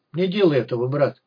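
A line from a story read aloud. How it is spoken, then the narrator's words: Grim warning. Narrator (Russian): мрачно предостерег стрелок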